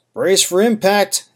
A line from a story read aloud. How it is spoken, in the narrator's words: Ava shouted